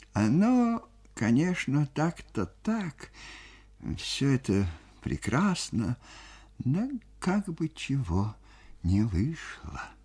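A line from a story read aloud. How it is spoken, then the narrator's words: Quiet. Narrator (Russian): тихо говорил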